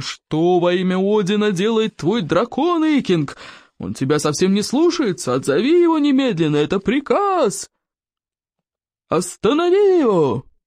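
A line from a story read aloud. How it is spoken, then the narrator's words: Creaky, eerie voice. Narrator (Russian): проскрипел жутким голосом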